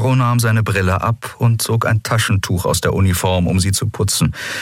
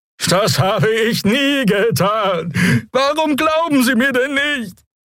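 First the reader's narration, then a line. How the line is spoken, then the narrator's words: Whining creature, mournful horn. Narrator (German): Der Draxyl brachte einen winselnden Laut hervor, begleitet von einem klagenden Tuten seines Horns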